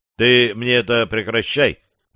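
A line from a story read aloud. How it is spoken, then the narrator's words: Irritated grumble. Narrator (Russian): бурчу раздраженно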